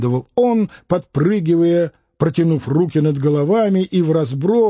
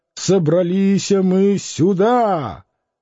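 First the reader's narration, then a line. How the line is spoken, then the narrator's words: Drunken growl. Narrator (Russian): Преждевременно зарычал пьяный в белом парике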